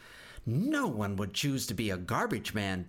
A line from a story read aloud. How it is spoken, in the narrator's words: Bebop giggled